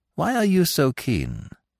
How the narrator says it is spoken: I asked weakly

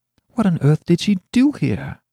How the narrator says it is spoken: I cried

